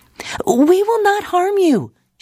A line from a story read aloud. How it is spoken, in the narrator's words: she yelled